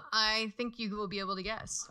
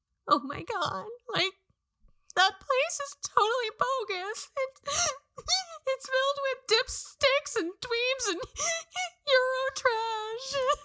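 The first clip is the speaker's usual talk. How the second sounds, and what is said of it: Sad, crying voice. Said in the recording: “Emotional, sad. ... Cry. Yeah. ... it's really an emotion, but it does make you sound a certain way.”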